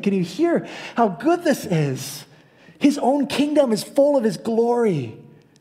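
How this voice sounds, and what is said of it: Rising, increasingly loud voice. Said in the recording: “my voice is rising.”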